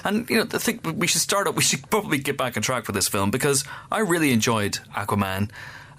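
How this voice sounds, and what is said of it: Congested voice from a cold. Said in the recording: “the slurgy that you may be able to hear in my voice from time to time”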